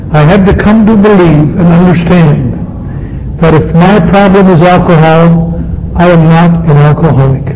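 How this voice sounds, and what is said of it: Speaks slowly and deliberately. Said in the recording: “can I say it slowly”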